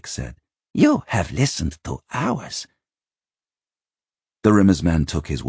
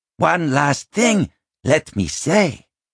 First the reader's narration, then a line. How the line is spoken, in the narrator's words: Binnabik called out, raising his voice